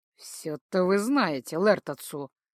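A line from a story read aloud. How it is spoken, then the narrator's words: Grumbling tiger. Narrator (Russian): проворчал тигр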